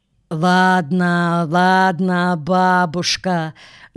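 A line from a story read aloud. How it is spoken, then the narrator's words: Mocking drawl. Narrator (Russian): Насмешливо протянул Игорь Александрович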